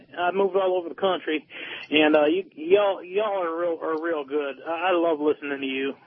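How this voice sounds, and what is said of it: Southern American accent. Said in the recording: “a guy with a southern accent”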